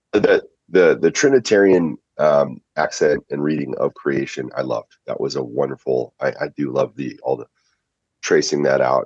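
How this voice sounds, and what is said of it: Froggy, hoarse voice. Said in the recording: “forgive my frogginess here”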